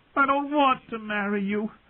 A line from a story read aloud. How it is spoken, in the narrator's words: Sansa wailed